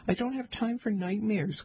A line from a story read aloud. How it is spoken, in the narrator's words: cried Andrew